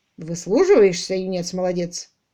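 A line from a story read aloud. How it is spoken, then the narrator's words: Grumbling mutter. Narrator (Russian): буркнул Том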